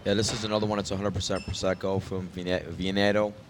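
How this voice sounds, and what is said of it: New York accent. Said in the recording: “That's my New York accent. ... I speak New York.”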